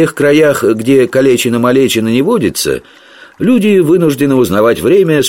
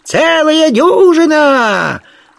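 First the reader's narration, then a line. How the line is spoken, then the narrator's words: Shrill voice from thicket. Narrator (Russian): откликнулся из чащи визгливый голос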